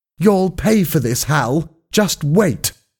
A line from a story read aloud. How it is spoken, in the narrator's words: he shouted